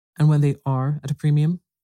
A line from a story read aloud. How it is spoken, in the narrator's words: said Mr